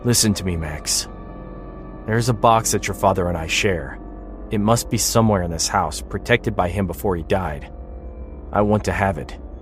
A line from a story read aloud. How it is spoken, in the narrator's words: said coolly, his tone firm